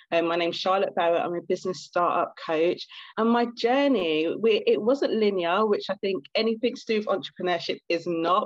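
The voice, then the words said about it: British accent. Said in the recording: “in case you haven't guessed by my accent, I'm actually from the UK ... here in London, UK”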